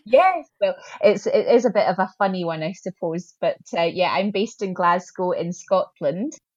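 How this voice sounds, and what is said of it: Scottish accent. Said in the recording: “fantastic Scottish accent ... the accent as being Scottish.”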